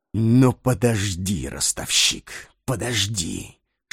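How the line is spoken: Menacing whisper. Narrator (Russian): шептал он, и зловещий огонь разгорался в его черных глазах

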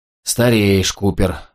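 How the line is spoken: Inner sighing thought. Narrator (Russian): мысленно вздохнул он

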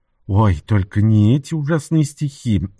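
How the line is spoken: Pleading. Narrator (Russian): взмолилась Вирджиния

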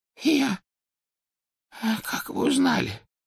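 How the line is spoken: Hoarse, pleading. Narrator (Russian): прохрипел Оливандер, с мольбой оглядываясь на Рона и Гермиону

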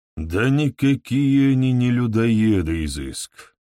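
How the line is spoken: Sighing. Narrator (Russian): вздохнул Фалибор

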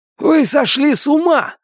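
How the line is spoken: Shouting. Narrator (Russian): закричал первый помощник

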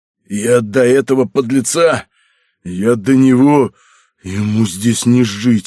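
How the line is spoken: Hoarse wheezing. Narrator (Russian): хрипел Добрыня

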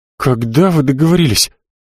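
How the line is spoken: Breathed out. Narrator (Russian): выдохнул Денис

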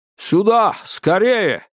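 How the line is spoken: Shouted. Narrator (Russian): крикнул Диккенс

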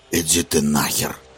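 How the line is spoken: Hoarse rasp. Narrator (Russian): хрипит стрелок

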